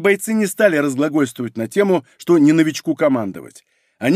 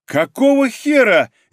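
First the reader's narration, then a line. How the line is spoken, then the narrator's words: Nervous exclamation. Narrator (Russian): нервно воскликнула рядовой, еще не совсем осознав серьезность ситуации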